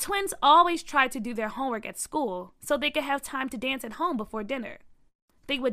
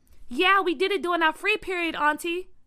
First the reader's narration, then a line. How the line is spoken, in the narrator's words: Byron yelled back